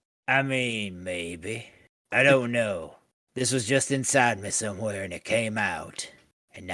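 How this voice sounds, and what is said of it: Usual voice. Nothing is said of it.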